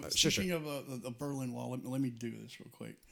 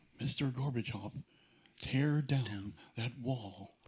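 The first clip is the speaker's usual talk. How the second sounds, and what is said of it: Imitates another person's voice. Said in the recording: “My Reagan impersonation... I would not quit your day job... Impersonations may not be the thing you were made to do”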